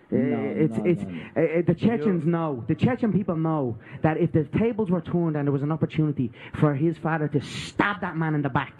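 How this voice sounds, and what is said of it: Strong accent, hard to understand. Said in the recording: “accent is kind of hard to hear through”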